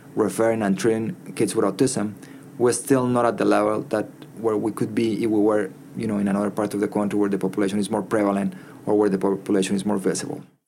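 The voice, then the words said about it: Non-native accent in English. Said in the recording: “I have an accent when I speak in English ... I didn't learn English when I was young enough. I learned my English when I was 10, 13 years old”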